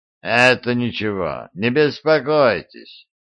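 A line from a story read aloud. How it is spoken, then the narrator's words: Indifferent tone. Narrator (Russian): равнодушным тоном проговорил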